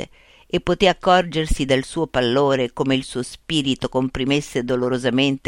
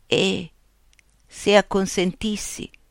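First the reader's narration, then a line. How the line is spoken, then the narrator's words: Very sweet voice. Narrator (Italian): egli chiese alla fine con una voce molto dolce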